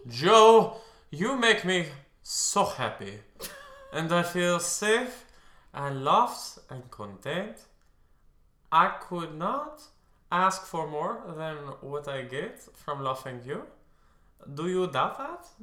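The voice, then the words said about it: Odd put-on accent while reading. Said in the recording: “What is that accent? ... did you like just forget and then relearn English?”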